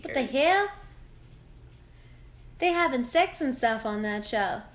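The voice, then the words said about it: Put-on Southern American woman's voice. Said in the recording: “talking like a Southern Black lady”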